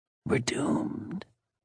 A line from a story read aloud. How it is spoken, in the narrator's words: whispered